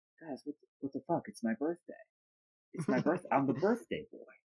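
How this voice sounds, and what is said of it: Imitates another person's voice. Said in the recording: “It's a great Mick Jagger impression.”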